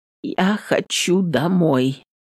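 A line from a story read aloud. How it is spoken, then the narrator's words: Hoarse voice with cold. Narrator (Russian): сообщает простуженным голосом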